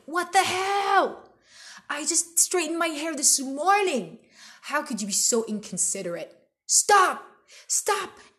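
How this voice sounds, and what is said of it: Yelling. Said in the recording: “you're yelling to the sky”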